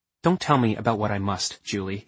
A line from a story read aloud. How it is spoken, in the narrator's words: he said coldly